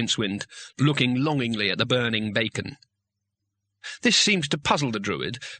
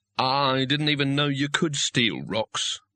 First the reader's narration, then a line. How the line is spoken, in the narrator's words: said Rincewind, wearily